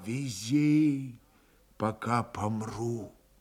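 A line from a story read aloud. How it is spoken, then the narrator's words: Strained whisper. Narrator (Russian): Еще раз он собрал в комок волю, прошептал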